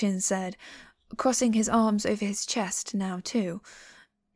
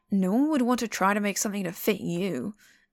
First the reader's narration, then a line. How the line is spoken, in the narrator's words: Mu Qing snapped